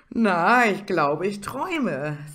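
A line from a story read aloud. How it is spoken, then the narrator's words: Laughing speech. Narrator (German): sagte dieser und schaute dabei lachend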